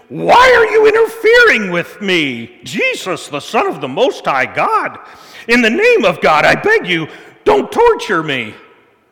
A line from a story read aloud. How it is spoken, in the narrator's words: With a shriek, he screamed